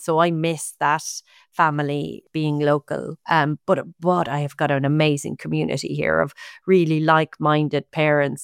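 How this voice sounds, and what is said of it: Irish accent. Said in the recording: “isn't in Ireland, as you can tell from my accent”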